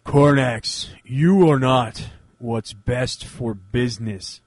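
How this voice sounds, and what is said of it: Randy Orton impression, flat boring delivery. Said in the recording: “my my Randy Orton, who's the most boring person in wrestling impersonation”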